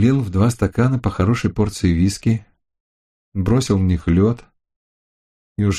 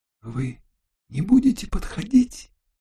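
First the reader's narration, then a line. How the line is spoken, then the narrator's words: Hoarse whisper. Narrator (Russian): хрипло прошептала она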